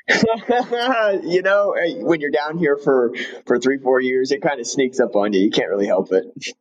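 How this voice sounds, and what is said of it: Southern US accent. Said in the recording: “you have developed yourself a Southern accent”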